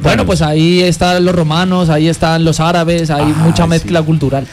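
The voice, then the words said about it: Spanish accent from Spain. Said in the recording (Spanish): “de una salió el acento”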